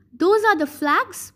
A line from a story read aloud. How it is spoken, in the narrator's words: yelled over the noise